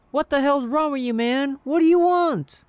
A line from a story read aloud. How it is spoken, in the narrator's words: He yelled at the man